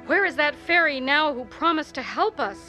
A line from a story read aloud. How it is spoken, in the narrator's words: he cried in anger and despair